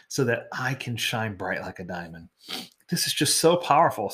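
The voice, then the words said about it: Teary, emotional voice. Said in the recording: “Sorry, I'm getting teary.”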